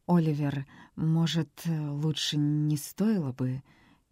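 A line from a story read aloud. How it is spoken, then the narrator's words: Hesitant stammering mutter. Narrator (Russian): Чуть запинаясь, пробормотала она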